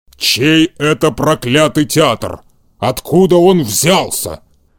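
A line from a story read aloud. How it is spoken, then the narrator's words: Growl. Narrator (Russian): прорычал Карабас-Барабас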